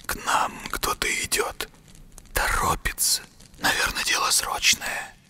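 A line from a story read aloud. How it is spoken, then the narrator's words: Barely audible hiss. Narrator (Russian): едва слышно прошипел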